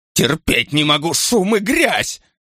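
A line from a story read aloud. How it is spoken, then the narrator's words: Shout. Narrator (Russian): крикнула она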